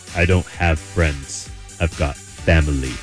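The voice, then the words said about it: Deep voice imitating a film actor. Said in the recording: “I sound exactly like Vin Diesel ... The deep voice.”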